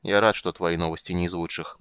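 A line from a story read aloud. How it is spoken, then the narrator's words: Gloomy remark. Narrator (Russian): мрачно заметил Карамон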